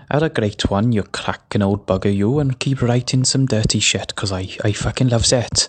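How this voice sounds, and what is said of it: Put-on Welsh accent. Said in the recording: “don't you think my Welsh accent is a bit better than Jamie's?”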